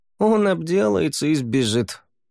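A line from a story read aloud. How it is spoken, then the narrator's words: Snorting. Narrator (Russian): фыркнул Савьер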